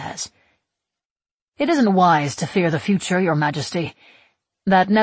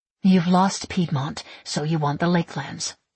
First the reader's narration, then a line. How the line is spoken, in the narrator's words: I mutter